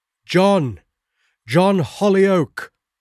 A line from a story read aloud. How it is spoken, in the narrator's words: shouted with all the power of my lungs